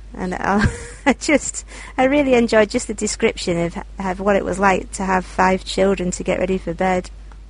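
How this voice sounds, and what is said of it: Speaks with a distinct accent. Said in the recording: “your accent is just lovely”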